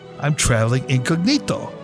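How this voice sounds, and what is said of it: Put-on Italian accent. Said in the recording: “in the best Italian accent I could muster”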